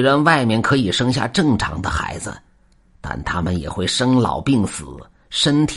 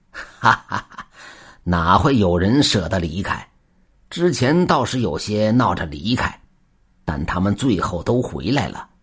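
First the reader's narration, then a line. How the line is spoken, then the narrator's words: Hearty laughter. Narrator (Chinese): 夫妇哈哈大笑，说道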